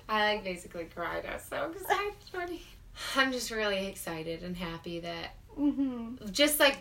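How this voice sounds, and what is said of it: Sick, weird-sounding voice that cracks. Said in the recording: “I've been kind of sick, so my voice sounds weird. So I might, like, crack sometimes.”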